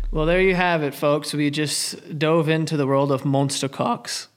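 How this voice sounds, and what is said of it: Put-on British accent. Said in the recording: “was that a British accent?”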